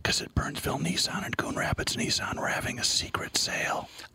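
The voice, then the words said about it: Whispering. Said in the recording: “Still got the cone of silence. Why are we whispering?”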